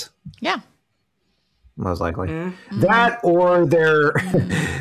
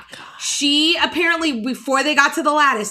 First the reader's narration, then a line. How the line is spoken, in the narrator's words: yelled Mickey